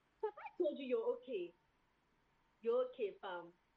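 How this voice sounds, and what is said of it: Attempted British London accent. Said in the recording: “like a London Ghanaian kid ... sound British”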